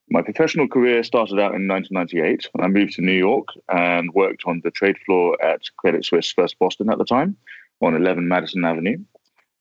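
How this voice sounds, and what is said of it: British accent. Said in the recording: “I picked up this fantastically British accent”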